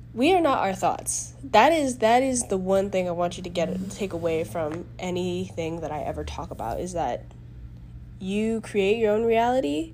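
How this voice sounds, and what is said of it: Congested, stuffy-nosed voice. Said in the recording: “My voice is very congested because I am sick.”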